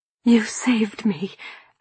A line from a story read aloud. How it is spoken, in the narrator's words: I whispered